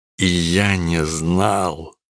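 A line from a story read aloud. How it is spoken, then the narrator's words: Groaned. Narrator (Russian): Простонал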